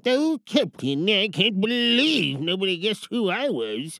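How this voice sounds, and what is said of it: Smee character voice. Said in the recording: “the character voices that I did ... And then we had Smee.”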